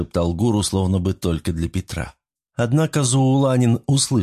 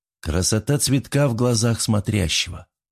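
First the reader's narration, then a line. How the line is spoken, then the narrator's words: Sad. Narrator (Russian): грустно резюмировал его мысли Кумари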